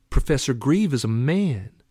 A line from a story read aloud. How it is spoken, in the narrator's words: Matt snapped back